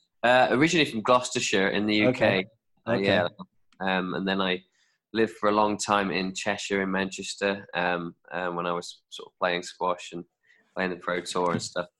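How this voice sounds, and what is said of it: Non-American accent. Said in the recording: “Judging by your accent, you're not really from Philly or the U.S.”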